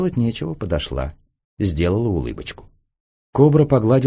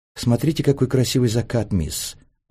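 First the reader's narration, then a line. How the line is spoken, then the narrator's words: Cooing. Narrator (Russian): проворковала Белинда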